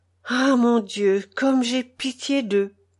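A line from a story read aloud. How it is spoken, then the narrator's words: Whispered. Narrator (French): chuchote Pavel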